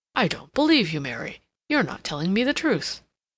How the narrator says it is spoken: suddenly he exclaimed

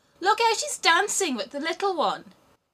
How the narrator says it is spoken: And the robbers laughed and said

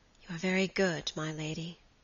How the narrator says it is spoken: Phoebe answered with a sigh

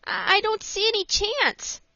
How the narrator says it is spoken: said Frank, looking anxiously

